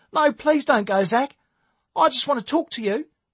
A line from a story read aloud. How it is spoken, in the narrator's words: Ruth pleaded